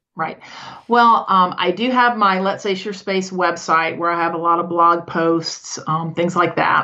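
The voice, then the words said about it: Slight Southern American accent. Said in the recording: “I get that little Southern accent there.”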